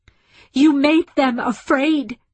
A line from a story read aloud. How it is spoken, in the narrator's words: she shouted